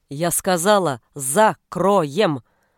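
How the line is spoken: Barked. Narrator (Russian): рявкнула Моника

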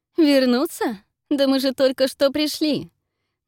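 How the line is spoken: Mocking reply. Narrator (Russian): насмешливо откликается Фелисити

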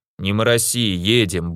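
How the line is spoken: Gruff mumble. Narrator (Russian): буркнул Воха

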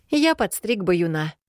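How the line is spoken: Confessed by a brother. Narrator (Russian): признался брат

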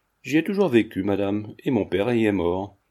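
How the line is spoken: Rather curt reply. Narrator (French): répondit assez sèchement Mademoiselle Monistrol

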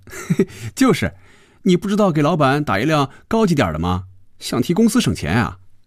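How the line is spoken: Laughing. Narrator (Chinese): 菲比笑着对肖斌说

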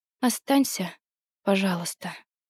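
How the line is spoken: Quiet plea. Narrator (Russian): она тихо попросила

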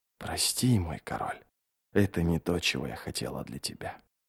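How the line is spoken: Quiet. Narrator (Russian): Мать Гандринг тихо сказала

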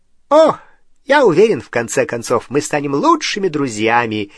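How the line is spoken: Cheerful promise. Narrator (Russian): весело пообещал Дингл

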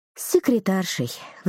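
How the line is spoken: Sighing. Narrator (Russian): вздохнула Дана

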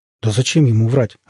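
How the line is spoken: Confused asking. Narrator (Russian): растерянно спросил Леонов после минутного замешательства

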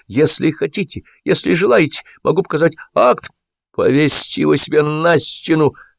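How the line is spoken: Hoarse, strained. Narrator (Russian): хрипло выдавил Бурчалкин

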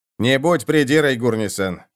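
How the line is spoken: Snort. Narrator (Russian): фыркнул Роди

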